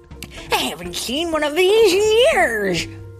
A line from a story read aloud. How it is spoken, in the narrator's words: he exclaimed